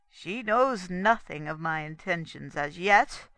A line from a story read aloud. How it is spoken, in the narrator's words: added sternly